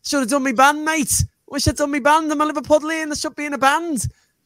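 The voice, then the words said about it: Exaggerated Liverpool accent. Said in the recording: “I'm putting on a stronger accent than he has”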